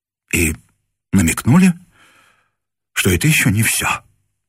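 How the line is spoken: Breathed out. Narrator (Russian): выдохнул он

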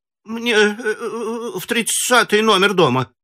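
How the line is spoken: Frightened woman. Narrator (Russian): испуганно сказала женщина

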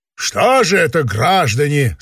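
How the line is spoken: Official bureaucratic tone. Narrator (Russian): сказал он казенным голосом

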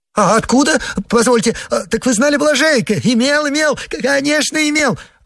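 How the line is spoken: Joyful rapid chatter, laughing. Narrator (Russian): Радостно затараторил Погоревших, хохоча

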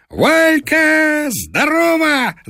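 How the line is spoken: Shouted. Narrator (Russian): закричал он

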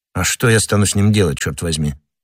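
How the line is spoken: Plain question. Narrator (Russian): спросил англичанин

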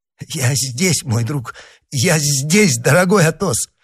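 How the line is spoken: Mumbled. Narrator (Russian): пробормотал, чуть не шатаясь, Д'Артаньян

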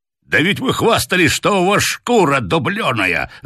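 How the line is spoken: Colonel roaring with laughter. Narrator (Russian): захохотал полковник

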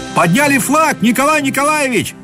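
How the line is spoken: Shouting while running. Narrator (Russian): закричал, наконец, в окно бегущий по дорожке к дому Корсаков

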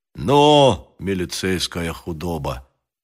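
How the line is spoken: Quiet. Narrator (Russian): сказал Грищенко негромко

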